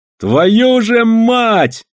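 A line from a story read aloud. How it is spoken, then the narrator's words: Shouted out. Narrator (Russian): кто это выкрикнул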